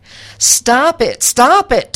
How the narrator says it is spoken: Tony screamed

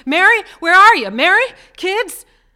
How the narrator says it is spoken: George called out at the top of his voice

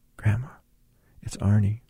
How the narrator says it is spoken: I whispered in her ear

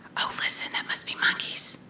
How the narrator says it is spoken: Quietly, with excitement, I said

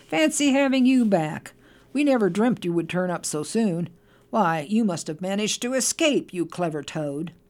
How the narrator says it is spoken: Mole cried, beaming

